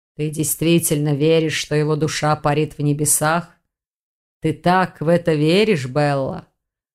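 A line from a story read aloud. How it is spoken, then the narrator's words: Muffled question. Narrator (Russian): глухо спросил маг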